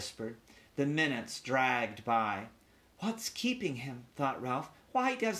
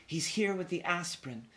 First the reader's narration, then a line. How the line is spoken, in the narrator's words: whispered Miss Gridley